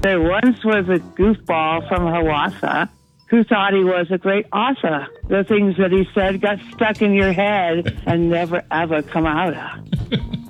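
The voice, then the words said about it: Tired, just-woken-up voice. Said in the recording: “You sound really tired there”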